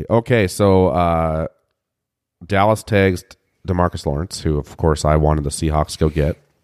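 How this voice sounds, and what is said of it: Low, slow podcast voice. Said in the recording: “With my new podcast voice... Low and slow”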